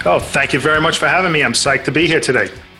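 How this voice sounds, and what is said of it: New York accent. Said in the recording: “You got a funny accent, man. Where are you from? ... New York.”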